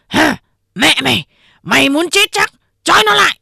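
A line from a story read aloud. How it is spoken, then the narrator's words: Barked shout. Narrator (Vietnamese): Ba Hồ quát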